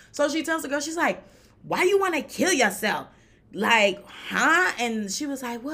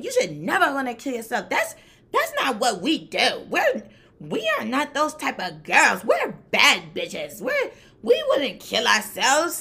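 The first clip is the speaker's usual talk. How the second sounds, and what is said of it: Imitates another person's voice. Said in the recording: “This accent? ... I'm trying to be her.”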